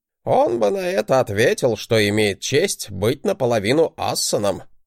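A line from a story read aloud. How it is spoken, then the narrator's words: Wry grunt. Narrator (Russian): хмыкнул Годи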